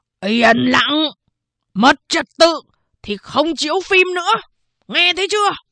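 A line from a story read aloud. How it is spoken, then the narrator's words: Guard shouting. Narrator (Vietnamese): Một vệ sĩ hét lên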